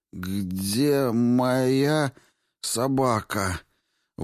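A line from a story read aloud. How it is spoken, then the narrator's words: Strained, astonished, foreign sounds. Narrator (Russian): Выдавил Рико с изумлением, осознав, что произносит звуки чужого языка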